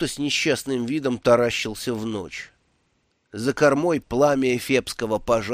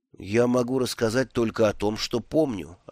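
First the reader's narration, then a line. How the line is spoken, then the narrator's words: Plain. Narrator (Russian): ответил он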